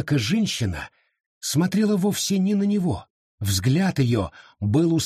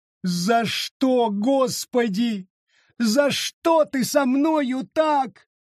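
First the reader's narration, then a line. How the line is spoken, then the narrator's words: Moaning, uncontrollable sobbing. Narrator (Russian): простонала она, упав на колени, прикрыла лицо ладонями и безудержно разрыдалась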